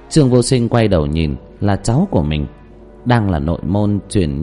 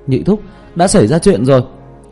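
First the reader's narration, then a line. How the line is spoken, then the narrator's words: Loud cry from afar. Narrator (Vietnamese): còn ở rất xa mà đã kêu lên oai oái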